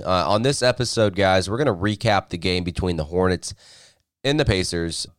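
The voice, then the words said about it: Raspy voice. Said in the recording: “I'm kind of getting over a cold here, so you can probably kind of sound or hear the sound of my raspy voice”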